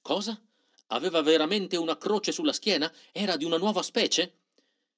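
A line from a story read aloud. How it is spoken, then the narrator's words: Agitated old man nearly shouting. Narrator (Italian): Michele Zompa, un vecchio posato come lui, ne fu stranamente impressionato, si mise quasi a gridare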